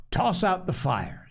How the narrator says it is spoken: said the captain

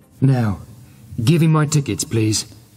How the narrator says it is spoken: he said calmly

